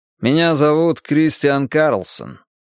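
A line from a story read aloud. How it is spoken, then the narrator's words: Dry young voice. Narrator (Russian): сухо сказал юный хакер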